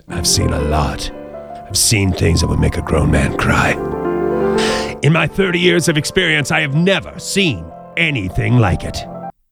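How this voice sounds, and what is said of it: Imitates another person's voice. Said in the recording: “I'll do it like the lieutenant, how I imagine he sounds ... That's my impersonation.”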